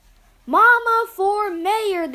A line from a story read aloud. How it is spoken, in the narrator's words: they shouted